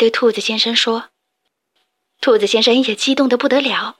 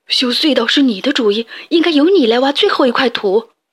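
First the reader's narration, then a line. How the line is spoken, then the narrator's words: Excited shout. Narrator (Chinese): 鼹鼠先生兴奋地大叫起来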